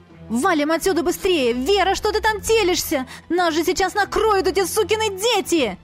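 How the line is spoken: Panicked shouting. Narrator (Russian): кричала на Веру

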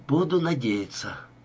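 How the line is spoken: Sigh. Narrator (Russian): вздохнула Ева

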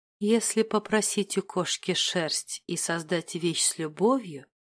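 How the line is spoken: Quiet muttering to herself. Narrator (Russian): тихо приговаривала она себе под нос

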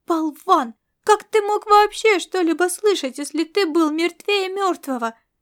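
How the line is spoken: Exclamation. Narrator (Russian): Воскликнула Фанечка

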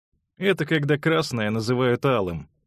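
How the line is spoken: Mocking interjection. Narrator (Russian): насмешливо ввернул заячья губа

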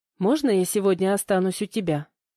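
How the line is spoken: Timid question. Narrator (Russian): спросила робко

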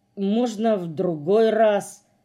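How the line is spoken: Hesitant mumble. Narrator (Russian): нерешительно промямлил Морж

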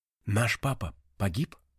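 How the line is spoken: Quiet question. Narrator (Russian): тихо спросил Вико

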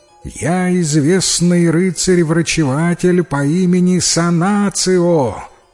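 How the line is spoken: Shouting. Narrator (Russian): прокричала

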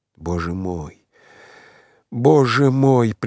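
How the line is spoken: Repeated muttering, doubled over. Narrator (Russian): приговаривал он, согнувшись вдвое

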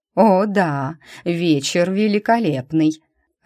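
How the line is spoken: Laughing. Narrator (Russian): рассмеялась Розали

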